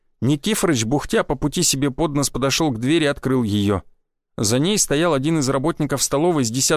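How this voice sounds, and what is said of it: Usual voice. Nothing is said of it.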